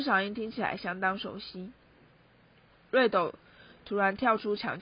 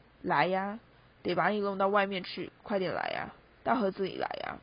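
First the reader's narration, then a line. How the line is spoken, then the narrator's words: Hoarse whisper. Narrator (Chinese): 某个人沙哑的耳语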